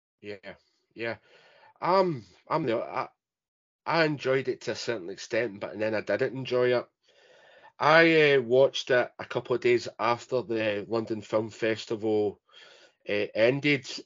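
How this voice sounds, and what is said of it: Scottish Glasgow accent. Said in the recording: “Obviously, my accent gives it away. I don't live close to London. I actually live close to Glasgow.”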